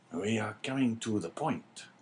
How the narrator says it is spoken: whispered the governor

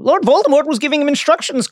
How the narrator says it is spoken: Dumbledore said

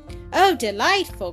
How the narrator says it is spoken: cried Dorothy

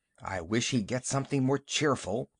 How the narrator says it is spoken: Emerald whispered to Lou

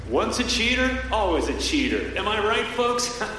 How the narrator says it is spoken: The voice laughed

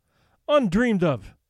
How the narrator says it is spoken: cried Mercedes in dainty dismay

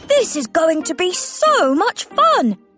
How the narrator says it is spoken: said Thomas excitedly

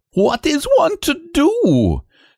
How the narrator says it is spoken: He said, his voice going up to an angry squeak

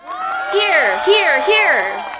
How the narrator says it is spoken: They shouted, and kept on repeating it in chorus

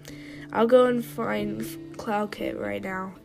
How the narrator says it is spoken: he sighed

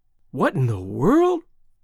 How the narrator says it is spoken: his father exclaiming

